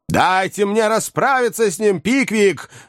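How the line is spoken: Shout. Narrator (Russian): закричал мистер Ордль

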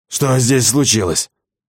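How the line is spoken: Hoarse croak. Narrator (Russian): хрипло каркнул Клебан

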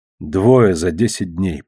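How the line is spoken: Muttered. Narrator (Russian): пробормотал я

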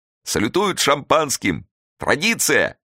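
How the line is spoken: Shouting, choking with laughter. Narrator (Russian): крикнул сквозь грохот Тимофей Тимофеевич, давясь смехом

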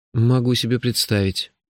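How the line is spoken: Bewildered. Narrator (Russian): растерянно сказал я

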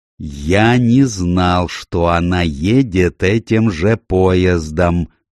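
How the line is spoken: Slow, deliberate, condescending. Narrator (Russian): медленно произнес он, отделяя каждое слово, как будто бы говорил со слабоумным

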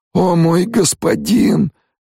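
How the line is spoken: Moan. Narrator (Russian): простонал Стилгар

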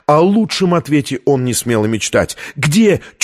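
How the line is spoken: Nearly shouting. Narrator (Russian): чуть не выкрикнула Витория

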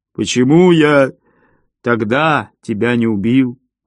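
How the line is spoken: Moaning. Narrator (Russian): простонал он

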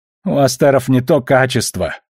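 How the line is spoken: Whining. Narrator (Russian): проскулил капитан

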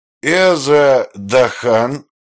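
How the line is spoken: Toothless mumbling old man. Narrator (Russian): прошамкал Дон Перес

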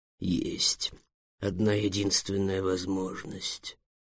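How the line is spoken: Mysterious whisper. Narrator (Russian): таинственным шепотом произнес дракон

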